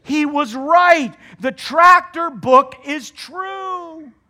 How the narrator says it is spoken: the people shouted

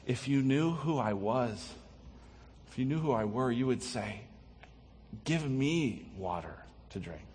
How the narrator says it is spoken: Jesus tenderly interacts with her and says

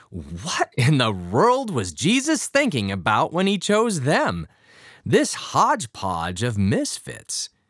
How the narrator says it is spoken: can't help exclaiming

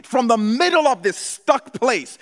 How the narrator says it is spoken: Jonah cried

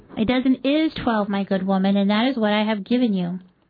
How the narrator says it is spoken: I replied

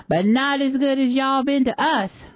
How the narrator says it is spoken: a shout from one of the boys answers back

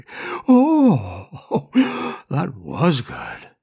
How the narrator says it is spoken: she groaned close to the phone to make sure Lucy got it

